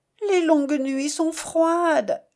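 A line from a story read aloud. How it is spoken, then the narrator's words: Moaning. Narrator (French): gémit-elle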